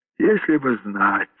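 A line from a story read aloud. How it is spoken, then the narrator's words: Sighing man. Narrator (Russian): вздохнул Брусилов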